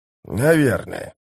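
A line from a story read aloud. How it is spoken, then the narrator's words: Grumbling. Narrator (Russian): проворчал бывший жрец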